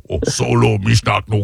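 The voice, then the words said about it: Jabba the Hutt impression. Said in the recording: “my Jabba the Hutt impression”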